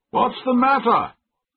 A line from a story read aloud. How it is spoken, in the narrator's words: shouted my master